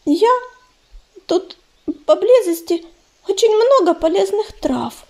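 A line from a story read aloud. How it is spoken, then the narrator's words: Panicky babble. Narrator (Russian): залепетала она, стараясь не поддаваться панике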